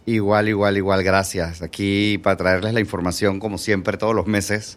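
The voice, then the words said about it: Announcer-style radio voice. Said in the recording (Spanish): “esa voz de locutor, hombre. Oh. Qué bien, ¿eh? Muy bien, muy bien.”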